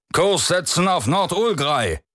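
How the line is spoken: Captain barking orders afar. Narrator (German): bellte der Kapitän durch die offene Tür den Steuermännern zu

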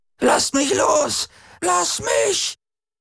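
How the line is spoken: Piercing shriek. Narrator (German): kreischte sie wie am Spieß

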